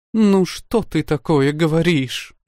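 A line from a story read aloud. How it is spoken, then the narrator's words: Exclaimed, sobbing aloud. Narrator (Russian): воскликнула, рыдая в голос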